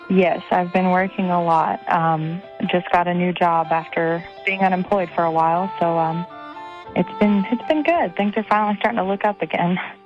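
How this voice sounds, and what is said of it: Tired-sounding voice. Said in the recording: “You sound a little tired.”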